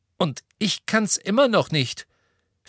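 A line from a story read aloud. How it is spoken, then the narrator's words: Angry. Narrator (German): fügte wütend hinzu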